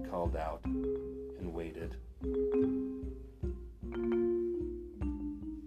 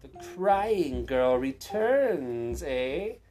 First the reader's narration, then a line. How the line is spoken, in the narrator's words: the witch sneered